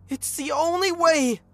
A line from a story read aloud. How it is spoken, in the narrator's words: Angela screamed